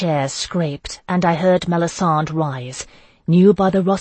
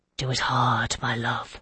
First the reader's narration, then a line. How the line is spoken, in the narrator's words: her rich voice breathed